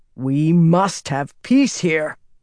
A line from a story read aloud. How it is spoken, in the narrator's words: Rand growled